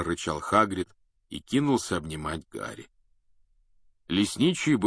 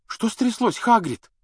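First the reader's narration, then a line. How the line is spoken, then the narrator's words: Frightened question. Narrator (Russian): спросила испуганно Гермиона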